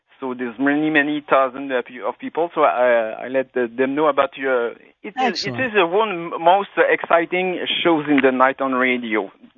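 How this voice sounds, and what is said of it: Quebec French accent in English. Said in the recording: “I apologize for my French accent. I'm from Quebec.”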